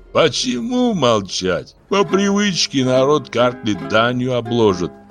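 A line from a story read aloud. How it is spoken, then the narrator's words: Laughing. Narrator (Russian): засмеялся Папуна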